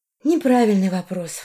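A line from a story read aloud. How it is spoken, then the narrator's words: Sigh. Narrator (Russian): вздохнула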